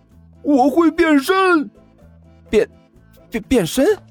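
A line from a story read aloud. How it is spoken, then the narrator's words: Young man roaring. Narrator (Chinese): 少年大吼了一声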